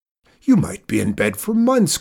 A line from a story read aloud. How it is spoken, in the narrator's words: cried Zeke